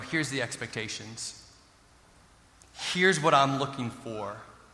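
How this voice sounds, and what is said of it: Stern fatherly voice. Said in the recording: “pulled up my dad voice a little bit”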